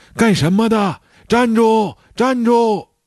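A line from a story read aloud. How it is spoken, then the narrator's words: Loud shout. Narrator (Chinese): 有个人大喊道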